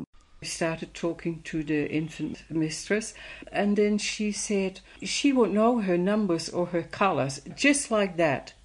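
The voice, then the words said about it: Non-native foreign accent. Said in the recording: “people ask her about her accent ... Just because I have an accent.”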